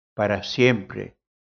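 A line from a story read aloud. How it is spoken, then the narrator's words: Plain. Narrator (Spanish): respondió el otro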